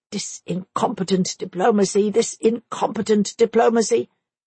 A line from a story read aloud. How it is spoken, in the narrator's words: Another kept grumbling